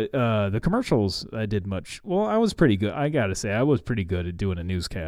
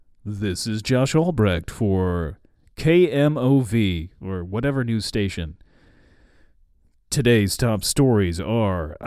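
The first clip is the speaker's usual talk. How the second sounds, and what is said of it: Deep news announcer voice. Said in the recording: “I can do a very good announcer voice and do it deeply”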